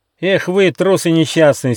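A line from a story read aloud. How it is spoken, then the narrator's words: Angry shout. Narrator (Russian): сердито закричал Рыж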